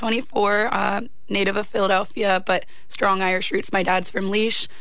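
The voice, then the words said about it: Worn-out, strained voice. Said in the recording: “excuse my voice. I haven't stopped singing, rapping, or talking since last Thursday.”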